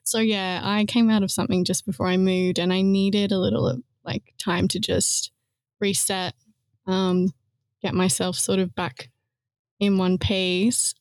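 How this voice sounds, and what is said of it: Australian accent. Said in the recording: “I don't know if you can tell by my accent, but I'm not from here. I'm from Australia.”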